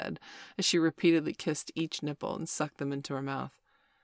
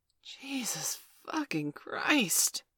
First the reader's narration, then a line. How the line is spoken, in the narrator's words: I gasped in true admiration